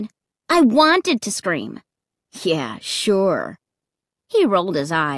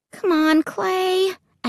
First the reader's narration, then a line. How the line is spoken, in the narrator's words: I pleaded